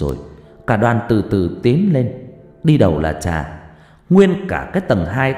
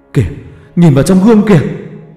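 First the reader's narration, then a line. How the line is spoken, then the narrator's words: Panicked shriek. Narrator (Vietnamese): tiếng hét thất thanh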